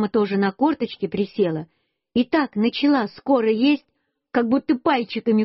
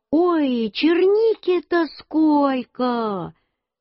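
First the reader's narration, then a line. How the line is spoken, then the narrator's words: Shouting. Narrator (Russian): Мама закричала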